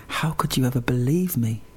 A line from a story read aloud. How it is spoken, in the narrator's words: she smiled and said softly